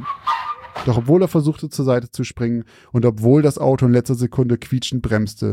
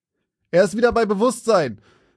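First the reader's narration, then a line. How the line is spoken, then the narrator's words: Paramedic calling out. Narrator (German): rief einer der Sanitäter seinen Kollegen zu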